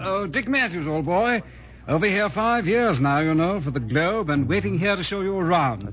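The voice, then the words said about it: English accent. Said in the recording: “It's that English accent. It kind of gets me down.”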